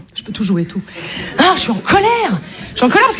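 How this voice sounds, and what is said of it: Marseille French accent. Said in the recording (French): “accent, je suis marseillaise”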